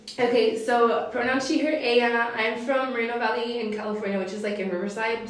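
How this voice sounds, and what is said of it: Hoarse, fading voice. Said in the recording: “sorry for my voice, I'm losing it.”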